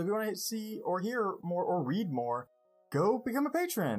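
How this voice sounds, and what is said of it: Usual voice. Nothing is said of it.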